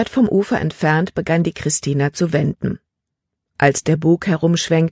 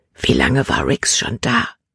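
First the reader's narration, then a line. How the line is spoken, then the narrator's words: Whispered. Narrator (German): flüsterte sie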